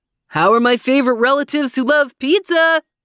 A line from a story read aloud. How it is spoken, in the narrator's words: he yelled